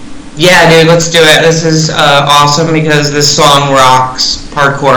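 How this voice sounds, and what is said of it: Usual voice. Nothing is said of it.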